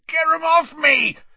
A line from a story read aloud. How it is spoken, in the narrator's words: he yelled